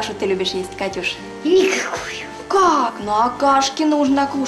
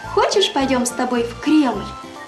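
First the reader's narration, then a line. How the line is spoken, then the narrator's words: Gentle question, mother. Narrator (Russian): мама ласково спросила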